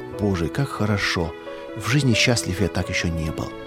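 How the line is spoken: Soft whisper. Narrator (Russian): тихонько шептал

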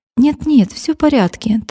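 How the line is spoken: Hurried reply. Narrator (Russian): торопливо ответила она

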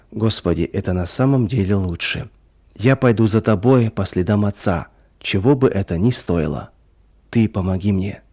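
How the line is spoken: Whispered. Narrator (Russian): Ваня прошептал

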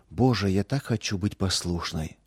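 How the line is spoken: Whispered. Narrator (Russian): шептала она

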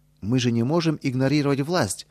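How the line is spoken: Exclaimed. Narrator (Russian): воскликнул Петр Федорович

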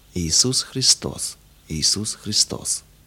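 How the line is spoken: Repeated undertone. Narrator (Russian): Адя твердил опять вполголоса

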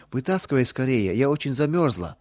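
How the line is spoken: Trembling voice. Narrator (Russian): ответила Нина дрожащим голосом

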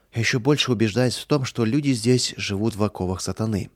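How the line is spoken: Regretful sigh. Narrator (Russian): с сожалением вздохнул Михаил

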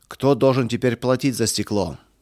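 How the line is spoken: Shouting. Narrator (Russian): кричал Эрих

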